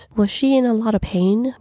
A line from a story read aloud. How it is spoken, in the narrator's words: Rachel asked, her voice slightly anxious